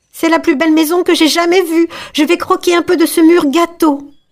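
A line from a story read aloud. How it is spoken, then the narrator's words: Exclaiming. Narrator (French): s'écria Gretel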